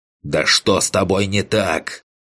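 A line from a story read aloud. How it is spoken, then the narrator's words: Hateful growl. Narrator (Russian): прорычал я, с ненавистью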